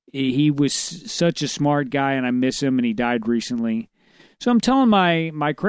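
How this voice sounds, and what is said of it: Usual voice. Nothing is said of it.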